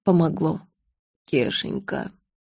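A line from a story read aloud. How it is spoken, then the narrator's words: Weak voice. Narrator (Russian): слабым голосом сообщил он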